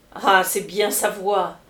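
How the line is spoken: Exclaiming. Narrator (French): s'écria Bibi Lupin

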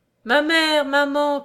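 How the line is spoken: Cry. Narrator (French): cria Charles

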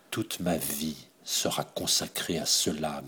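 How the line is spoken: Murmured. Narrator (French): murmura-t-elle

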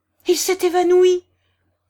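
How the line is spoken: Crowd exclaiming. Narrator (French): s'exclamèrent les assistants

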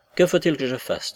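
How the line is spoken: Gloomy, dull question. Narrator (French): demanda-t-il d'un ton morne

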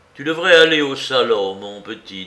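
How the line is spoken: Stern voice. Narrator (French): dit-il d'une voix sévère

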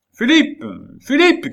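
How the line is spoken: Old man shouting. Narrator (French): cria le vieillard

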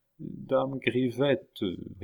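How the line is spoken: Barely intelligible voice. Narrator (French): répondit la somnambule d'une voix à peine intelligible

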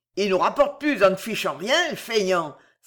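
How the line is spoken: Exclaiming. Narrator (French): s'exclamait Victor

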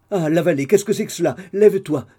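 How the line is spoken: Exclaimed. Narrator (French): s'écria madame de Ferval

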